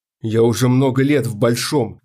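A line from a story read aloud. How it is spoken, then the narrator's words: Strained, forced out. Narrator (Russian): наконец выдавил он из себя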